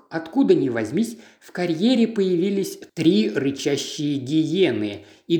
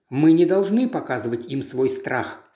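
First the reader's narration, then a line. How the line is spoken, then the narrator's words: Plain. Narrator (Russian): сказала Сильвия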